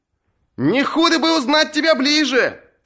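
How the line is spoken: Shouted. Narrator (Russian): крикнул кто-то

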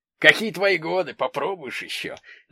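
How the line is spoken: Laughing at own joke. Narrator (Russian): засмеялся своей шутки Валентин Николаевич

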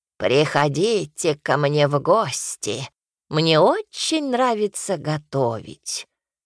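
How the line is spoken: Creaky voice. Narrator (Russian): скрипучим голосом проговорила она

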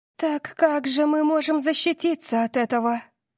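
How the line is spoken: Frightened pleading. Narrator (Russian): Взмолилась София, ее глаза округлились от страха

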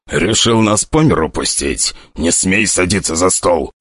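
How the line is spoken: Furious whisper. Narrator (Russian): сказал уже взбешенным шепотом

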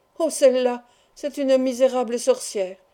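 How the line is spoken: Girl exclaiming. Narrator (French): s'écria la jeune fille

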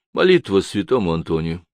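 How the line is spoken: Calm reply. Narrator (Russian): спокойно ответила Денис

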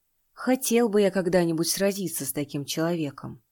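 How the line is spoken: Sighing. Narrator (Russian): вздохнул Юлян

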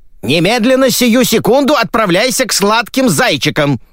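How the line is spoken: Shouted. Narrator (Russian): закричала маменька

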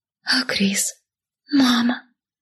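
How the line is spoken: Whispered. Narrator (Russian): прошептала я

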